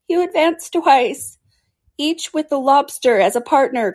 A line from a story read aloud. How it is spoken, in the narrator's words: cried the Gryphon